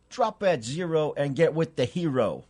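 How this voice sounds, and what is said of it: Put-on hipster accent. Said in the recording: “my best hipster accent ... it probably won't be very good”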